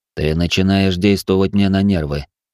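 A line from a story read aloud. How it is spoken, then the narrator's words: Calm reply. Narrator (Russian): спокойно ответил я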